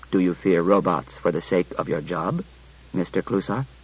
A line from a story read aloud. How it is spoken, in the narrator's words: Daniil said quietly to Klusar